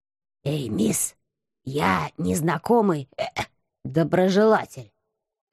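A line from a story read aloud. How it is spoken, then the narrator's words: Sudden hoarse whisper from behind. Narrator (Russian): раздался вдруг сиплый шепот за моей спиной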